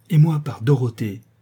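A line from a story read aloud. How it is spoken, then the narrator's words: Exclaiming. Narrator (French): s'écria Derneval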